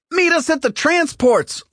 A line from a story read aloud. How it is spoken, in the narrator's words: Lorica shouted as they ran